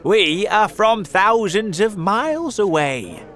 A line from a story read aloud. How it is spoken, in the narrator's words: the centipede shouted